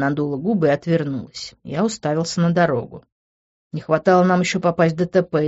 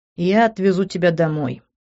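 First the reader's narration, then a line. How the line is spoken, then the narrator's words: Heavy sigh. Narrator (Russian): тяжело вздохнул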